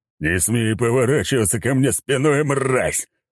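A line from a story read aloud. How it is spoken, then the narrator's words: Roar. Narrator (Russian): взревел Сигизмунд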